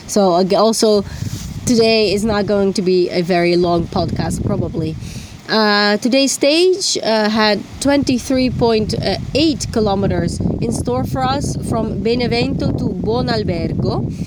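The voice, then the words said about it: Sick, hoarse cold-affected voice. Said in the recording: “I am still sick... maybe you can hear it from my voice... I still have a sore throat. I have a very strong cold.”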